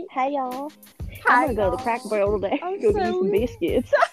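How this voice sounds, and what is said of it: Put-on Southern accent. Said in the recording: “I really just want to do like a typical like southern accent”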